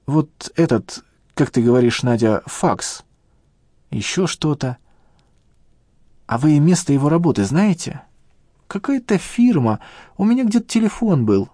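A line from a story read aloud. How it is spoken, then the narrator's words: Uncertain old woman. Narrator (Russian): неуверенно проговорила старушка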